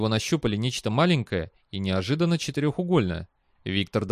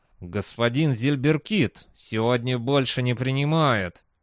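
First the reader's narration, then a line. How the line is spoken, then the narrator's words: Muttered through side of mouth. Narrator (Russian): процедил человек одной стороной рта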